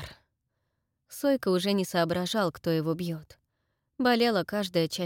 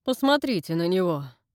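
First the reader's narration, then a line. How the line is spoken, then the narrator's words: Said through clenched teeth. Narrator (Russian): процедил Фрэнк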